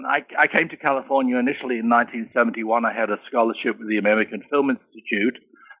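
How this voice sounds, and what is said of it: British English accent. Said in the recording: “you're from the United Kingdom, I'm assuming, by your accent. ... I uh, was born in Birmingham, England.”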